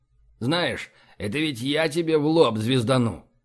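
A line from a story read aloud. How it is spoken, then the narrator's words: Hissing. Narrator (Russian): прошипел Мозер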